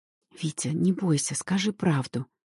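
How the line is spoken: Barely audible whisper. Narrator (Russian): шепчу я чуть слышно

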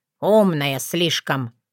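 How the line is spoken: Grumbling raven. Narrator (Russian): проворчал ворон

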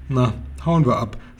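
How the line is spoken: Plain, horse. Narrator (German): sagte das Pferd

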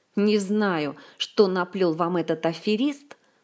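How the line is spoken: Angry hiss through teeth. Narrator (Russian): зло процедил всадник

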